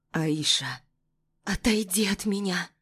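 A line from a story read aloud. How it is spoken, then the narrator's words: Trembling voice. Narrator (Russian): Произношу дрожащим голосом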